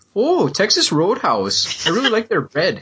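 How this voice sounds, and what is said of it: Exaggerated Wisconsin accent, drawn-out vowels. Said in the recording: “if you want to test a person's Wisconsin accent, just have them talk about Texas Roadhouse... all of a sudden, everything gets longer... why do you become fucking Otto von Strudel there?”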